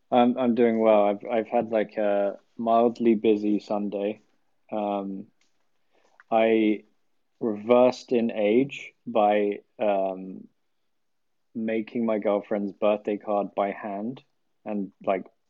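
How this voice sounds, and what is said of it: Speaks with a noticeable accent. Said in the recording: “Another amazing lad with a wonderful accent.”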